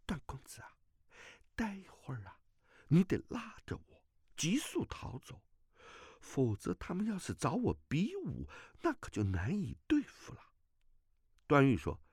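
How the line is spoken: Low voice. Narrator (Chinese): 阿朱低声道

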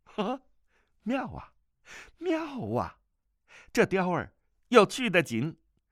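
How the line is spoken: Laughing. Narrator (Chinese): 段誉笑道

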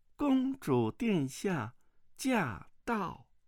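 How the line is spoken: Soft, crisp female voice. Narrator (Chinese): 一个宫女声音嘤嘤俐俐地说道

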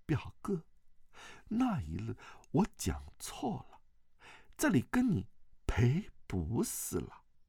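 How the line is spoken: Gentle voice. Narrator (Chinese): 王语嫣柔声说道

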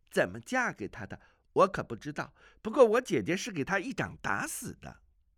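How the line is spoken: Light laugh. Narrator (Chinese): 阿紫轻轻一笑，说道

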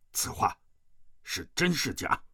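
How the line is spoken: Stern, harsh demand. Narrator (Chinese): 吴长老厉声喝问

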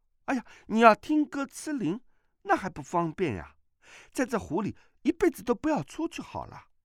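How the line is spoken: Clapping and laughing. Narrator (Chinese): 阿碧拍手笑道

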